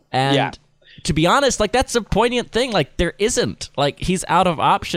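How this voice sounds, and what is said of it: Usual voice. Nothing is said of it.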